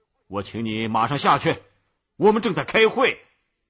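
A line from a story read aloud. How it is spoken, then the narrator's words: Furious, loud. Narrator (Chinese): 校长怒不可遏的大声说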